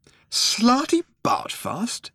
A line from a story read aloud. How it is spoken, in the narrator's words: exclaimed Arthur